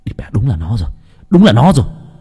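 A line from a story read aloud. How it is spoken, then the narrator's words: Shouting. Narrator (Vietnamese): Nam hét lên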